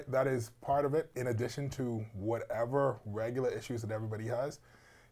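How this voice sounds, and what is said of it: Hoarse voice. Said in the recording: “I woke up hoarse this morning, and that's why I'm going to be using this voice for the entire time.”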